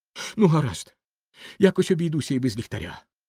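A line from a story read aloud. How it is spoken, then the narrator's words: Child exclaiming. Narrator (Ukrainian): вигукнув малий Ганс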